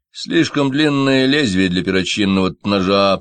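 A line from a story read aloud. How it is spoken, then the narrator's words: Grumbling. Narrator (Russian): проворчал врач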